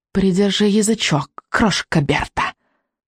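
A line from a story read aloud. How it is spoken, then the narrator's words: Witch's quick hiss. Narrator (Russian): быстро прошипела ведьма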